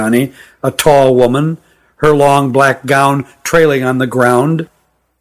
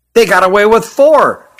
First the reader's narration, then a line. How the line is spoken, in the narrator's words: chirped Hutt